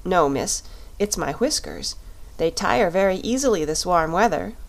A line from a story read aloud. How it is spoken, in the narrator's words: said he